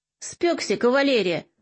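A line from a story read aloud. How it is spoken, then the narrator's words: Mocking. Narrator (Russian): насмешливо бросил Троян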